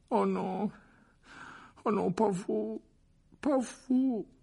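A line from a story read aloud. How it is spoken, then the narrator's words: Moaning. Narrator (French): gémit-il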